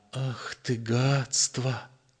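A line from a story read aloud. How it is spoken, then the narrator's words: Quiet repetition. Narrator (Russian): тихо повторил он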